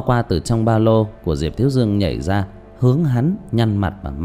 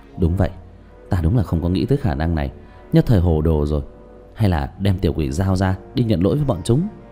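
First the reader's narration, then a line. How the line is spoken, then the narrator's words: Stunned mutter. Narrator (Vietnamese): Tứ Bảo há hốc mồm lẩm bẩm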